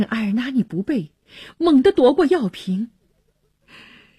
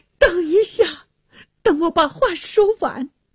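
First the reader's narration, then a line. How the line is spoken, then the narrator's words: Pleading. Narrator (Chinese): 纳沙尔哀求着说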